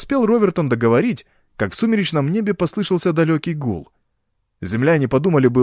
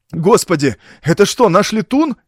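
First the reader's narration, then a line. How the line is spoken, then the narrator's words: Shouting. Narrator (Russian): закричал Деминг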